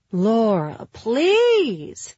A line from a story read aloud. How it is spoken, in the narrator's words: Philippa cried, with enough volume so that the nanny looked up from her phone